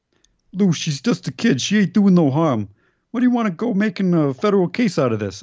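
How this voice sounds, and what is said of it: Put-on New York accent. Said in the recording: “That's a New York accent”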